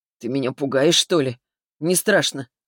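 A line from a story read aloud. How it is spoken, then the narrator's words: Smirking snort. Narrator (Russian): хмыкнул он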